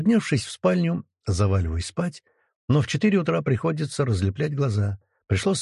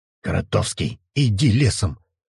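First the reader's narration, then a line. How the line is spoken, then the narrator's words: Irritated grumble. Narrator (Russian): раздраженно буркнул Крот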